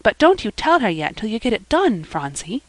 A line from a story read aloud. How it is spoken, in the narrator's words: whispered Polly